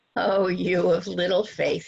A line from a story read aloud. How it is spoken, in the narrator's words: he says